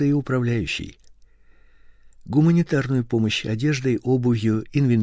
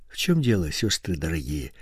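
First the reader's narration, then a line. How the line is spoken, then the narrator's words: Gentle question. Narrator (Russian): ласково спросил он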